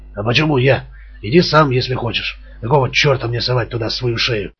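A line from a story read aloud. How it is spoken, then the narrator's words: Snapping back. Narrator (Russian): огрызнулся Борг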